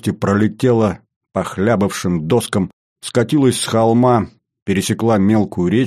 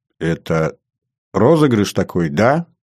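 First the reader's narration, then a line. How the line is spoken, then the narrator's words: Uncertain voice. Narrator (Russian): неуверенно сказала Светлана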